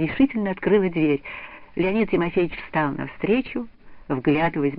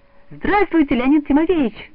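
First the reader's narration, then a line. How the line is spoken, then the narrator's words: Joyful unison exclamation. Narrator (Russian): Дружно и радостно вырвалось у обеих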